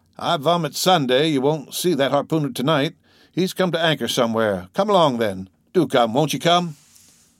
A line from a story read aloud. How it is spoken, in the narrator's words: he exclaimed